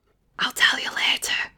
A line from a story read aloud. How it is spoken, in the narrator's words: Chris whispered